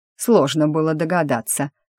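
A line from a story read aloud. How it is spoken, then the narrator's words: Scornful snort. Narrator (Russian): фыркнула преподаватель зелий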